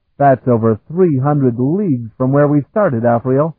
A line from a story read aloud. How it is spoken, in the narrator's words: he exclaimed